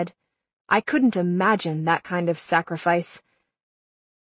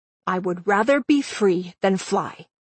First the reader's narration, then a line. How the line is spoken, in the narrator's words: Ollie said firmly